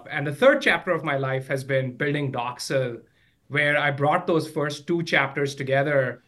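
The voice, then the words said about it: Midwestern American accent. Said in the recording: “I could tell from your accent, you're probably from the Midwest.”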